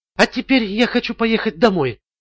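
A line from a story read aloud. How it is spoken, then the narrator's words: Barely audible speech. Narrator (Russian): едва слышно произнесла Ламар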